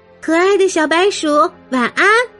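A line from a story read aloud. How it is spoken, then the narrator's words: Whispering. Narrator (Chinese): 他小声的说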